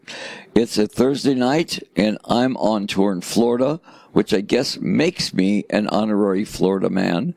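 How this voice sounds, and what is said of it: Raw, croaky voice. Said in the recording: “my voice sounds a little bit raw and croaky ... my voice is a little bit croaky”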